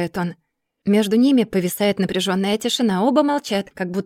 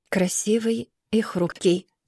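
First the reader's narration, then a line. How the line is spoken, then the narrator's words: Sudden, quiet. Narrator (Russian): вдруг негромко произносит он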